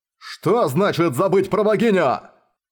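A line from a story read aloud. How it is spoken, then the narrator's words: Roaring. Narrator (Russian): Взревел Арес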